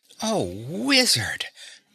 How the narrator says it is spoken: gasped Dorothy

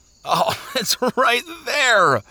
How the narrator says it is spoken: he cried

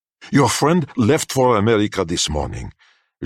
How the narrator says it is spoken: Jacques spat out quickly

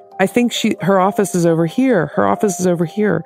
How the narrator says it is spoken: someone who yelled

